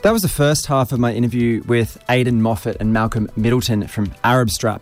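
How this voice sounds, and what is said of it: Congested voice with a cold. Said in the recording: “in the midst of a terrible cold, which you can probably hear in my voice.”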